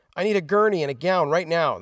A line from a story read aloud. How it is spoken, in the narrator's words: the nurse shouted